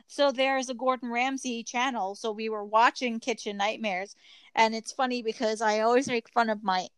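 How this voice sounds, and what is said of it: Strong New York accent. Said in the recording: “how strong my accent is, my New York accent”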